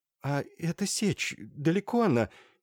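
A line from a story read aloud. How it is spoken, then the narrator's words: Frightened question. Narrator (Russian): Испуганно поинтересовалась Катерина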